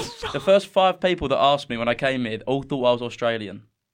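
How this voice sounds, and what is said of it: Essex English accent, dropped final T's. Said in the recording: “So like in Essex, we don't pronounce like T's and stuff at the end of words”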